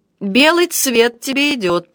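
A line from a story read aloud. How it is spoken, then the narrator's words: Grumbling. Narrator (Russian): пробурчал Тесен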